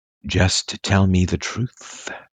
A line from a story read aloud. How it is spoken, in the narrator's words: would purr